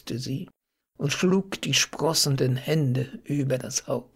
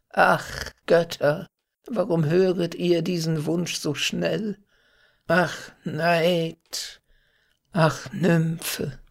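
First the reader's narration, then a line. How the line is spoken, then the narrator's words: Sighing river god. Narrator (German): seufzt itzt der Flussgott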